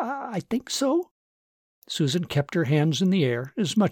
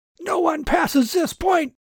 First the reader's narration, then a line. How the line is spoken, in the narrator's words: the young trooper shouted, regaining his in-charge voice